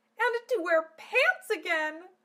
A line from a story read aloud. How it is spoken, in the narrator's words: cried joyfully